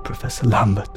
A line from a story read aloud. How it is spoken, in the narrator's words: came a cracked whisper of terror from Yuri's lips